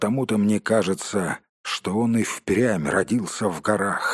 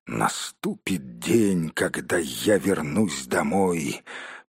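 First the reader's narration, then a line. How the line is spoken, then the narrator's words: Quiet grumbling. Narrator (Russian): тихонько ворчал себе под нос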